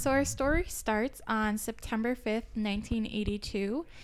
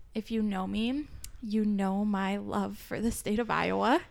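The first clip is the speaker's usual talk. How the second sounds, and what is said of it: Sarcastic tone. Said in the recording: “that was sarcastic.”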